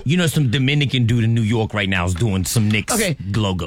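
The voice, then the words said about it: Put-on Dominican New Yorker accent. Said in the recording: “he tried to put an accent on it ... That's my Dominican New Yorker.”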